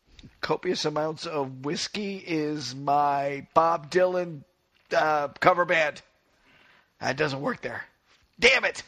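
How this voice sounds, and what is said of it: Voice with a head cold. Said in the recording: “I have a head cold myself”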